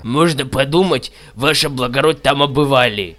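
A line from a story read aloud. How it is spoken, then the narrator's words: Grumbled. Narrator (Russian): Буркнул Панифаций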